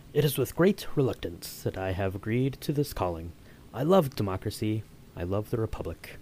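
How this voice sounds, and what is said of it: Ian McDiarmid impression as the Chancellor. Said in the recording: “do your best Ian McDiarmid with that quote ... you did excellent”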